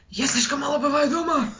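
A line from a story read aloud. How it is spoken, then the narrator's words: Exhaled. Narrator (Russian): выдохнул Дерек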